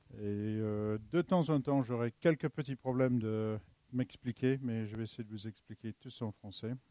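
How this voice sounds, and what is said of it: English accent speaking French. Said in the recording (French): “mon accent, je ne suis pas d'ici, je suis de Londres”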